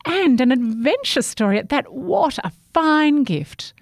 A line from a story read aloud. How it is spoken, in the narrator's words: she exclaimed